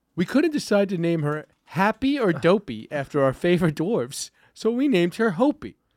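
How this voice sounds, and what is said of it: Tucker Carlson impression. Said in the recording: “This is my Tucker Carlson impression.”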